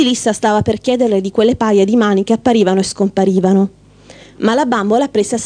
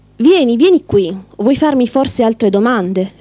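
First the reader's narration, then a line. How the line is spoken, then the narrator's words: Coaxing. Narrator (Italian): le disse con tono suadente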